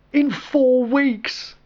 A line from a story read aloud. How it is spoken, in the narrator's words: Colin replied desperately